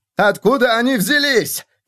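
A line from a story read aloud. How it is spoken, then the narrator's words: Shouting. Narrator (Russian): кричал он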